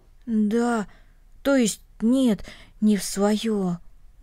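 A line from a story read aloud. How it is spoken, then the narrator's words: Muffled, dull. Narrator (Russian): глухо произнес Денис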